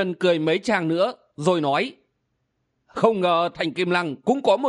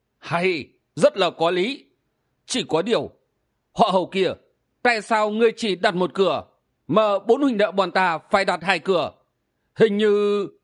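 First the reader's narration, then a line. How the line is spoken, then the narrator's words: Old man, laughing loudly. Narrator (Vietnamese): Hắc Y lão nhân lão cười lớn một tràng rồi nói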